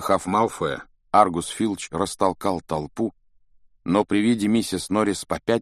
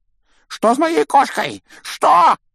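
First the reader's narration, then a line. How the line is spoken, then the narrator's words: Panicked yelling. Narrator (Russian): завопил он, выпучив глаза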